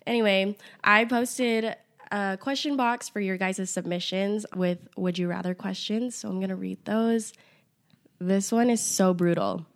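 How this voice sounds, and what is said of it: Nasal, raspy sick voice. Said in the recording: “I literally have bronchitis, so my voice is nasally and raspy”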